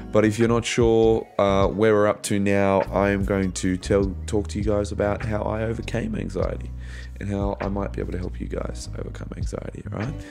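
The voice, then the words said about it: Croaky, rough voice. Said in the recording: “Sorry about my voice. It's a little bit croaky.”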